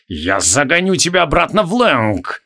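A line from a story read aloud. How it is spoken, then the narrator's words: Through gritted teeth. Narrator (Russian): процедил Криол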